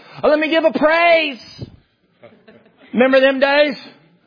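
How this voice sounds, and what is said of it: Sarcastic, smug tone. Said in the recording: “I'm being sincerely smug when I'm saying that. I'm being sarcastic”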